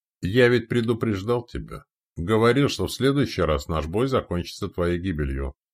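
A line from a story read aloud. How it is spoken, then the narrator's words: Calm. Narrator (Russian): спокойно произнес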